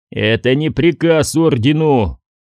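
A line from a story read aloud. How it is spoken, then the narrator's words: Growled. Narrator (Russian): прорычал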